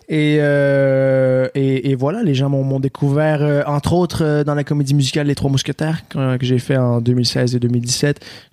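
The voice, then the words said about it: Québécois French accent. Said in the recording (French): “un bel accent québécois”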